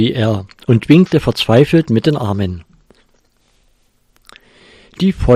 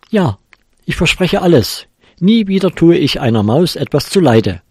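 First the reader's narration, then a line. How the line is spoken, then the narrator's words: Tomcat calling out. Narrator (German): rief der Kater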